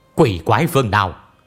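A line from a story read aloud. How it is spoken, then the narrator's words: Cold loud shout. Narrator (Vietnamese): lạnh giọng quát lớn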